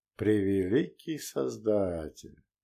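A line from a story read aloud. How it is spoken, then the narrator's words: Quiet exhale. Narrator (Russian): Саян тихо выдохнул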